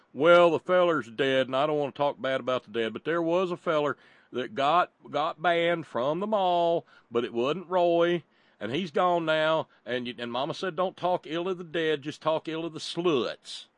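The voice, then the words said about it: Put-on folksy vernacular accent. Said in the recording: “I'm glad you used that vernacular right there in the accent”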